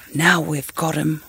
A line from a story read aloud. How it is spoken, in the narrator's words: whispered Te Pōpō